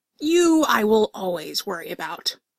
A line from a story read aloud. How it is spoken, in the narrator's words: Artie growled at Helena